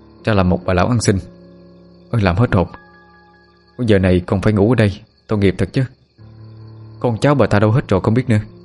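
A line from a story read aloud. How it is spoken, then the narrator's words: Sighing mutter. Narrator (Vietnamese): Người thanh niên thở hắt ra một hơi, miệng lẩm bẩm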